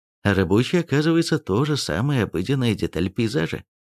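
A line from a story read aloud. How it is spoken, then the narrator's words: Plain. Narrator (Russian): ответил Суржиков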